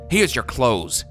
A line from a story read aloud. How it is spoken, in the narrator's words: he snapped out